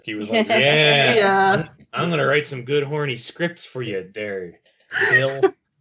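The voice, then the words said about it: Imitates another person's voice. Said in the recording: “my Roddenberry impression... It needs work... not as fine-tuned”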